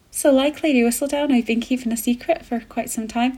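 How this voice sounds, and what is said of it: Attempted Irish accent, sounds Scottish. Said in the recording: “Can anyone do an Irish accent? ... That's definitely Scottish. I just absolutely went into a Scottish accent there.”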